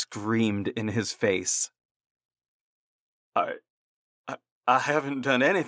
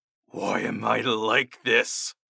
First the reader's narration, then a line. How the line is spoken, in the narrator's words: I garbled out in my unusual voice